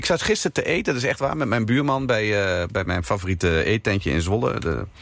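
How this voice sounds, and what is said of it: Eastern Dutch Overijssel regional accent. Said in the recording (Dutch): “dat je niet klinkt zoals de meesten klinken ... een beetje dat Oosterse, dat Overijsselse accent.”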